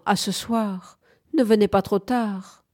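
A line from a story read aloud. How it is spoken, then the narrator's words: Sighing. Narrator (French): fit-elle en soupirant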